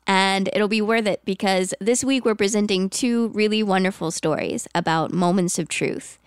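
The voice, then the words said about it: Congested, sick-sounding voice. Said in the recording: “I have a cold. ... I know it's not my usual dulcet tones”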